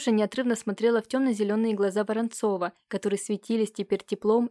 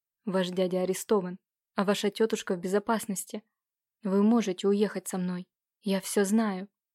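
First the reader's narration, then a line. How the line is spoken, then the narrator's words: Quiet, heartfelt. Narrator (Russian): Воронцов тихо проникновенно произнес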